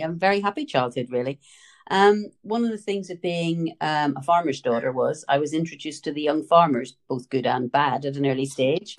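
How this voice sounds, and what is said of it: Northern Irish accent. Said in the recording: “as you can tell from the accent, I was born and raised in Northern Ireland”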